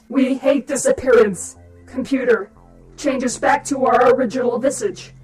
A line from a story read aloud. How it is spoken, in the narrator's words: After howling in pain, exclaimed in an electronic voice